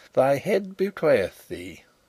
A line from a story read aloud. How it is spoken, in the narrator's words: he chuckled